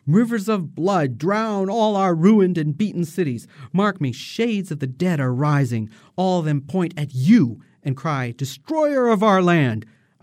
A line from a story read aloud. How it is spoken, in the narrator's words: Aida screams out